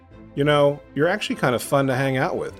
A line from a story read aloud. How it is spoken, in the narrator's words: she said